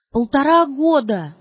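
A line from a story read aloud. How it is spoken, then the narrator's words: Breaking scream. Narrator (Russian): закричала рвущимся голосом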